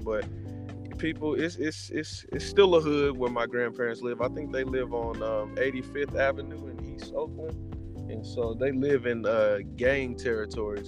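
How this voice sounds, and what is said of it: Texan accent. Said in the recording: “I thought you was your accent thought about Texan ... I'm Texan through and through”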